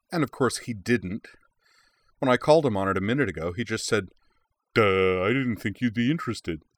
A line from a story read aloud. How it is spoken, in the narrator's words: she added in an exaggerated dumb guy voice